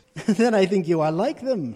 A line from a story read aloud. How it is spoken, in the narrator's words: laughed Prospero